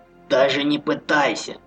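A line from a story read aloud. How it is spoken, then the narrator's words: Menacing hiss. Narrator (Russian): угрожающе прошипел полутруп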